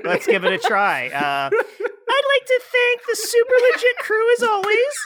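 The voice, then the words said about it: Imitation of a co-host's voice. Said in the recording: “Can you say goodbye in the way that Allie does your voice? ... That's not what I sound like.”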